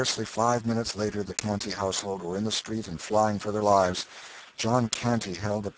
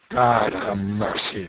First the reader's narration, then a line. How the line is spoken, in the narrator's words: exclaimed Canty